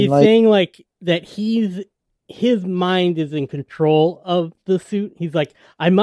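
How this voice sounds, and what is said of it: Usual voice. Nothing is said of it.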